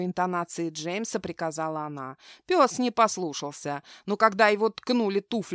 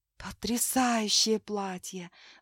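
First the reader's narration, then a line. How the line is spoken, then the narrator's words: Awed whisper. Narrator (Russian): с благоговением прошептала Мэри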